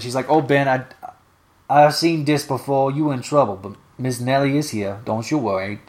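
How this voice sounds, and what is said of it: Character voice read in dialect. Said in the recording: “this is actually how she's written in dialect, so I'm reading it in the dialect.”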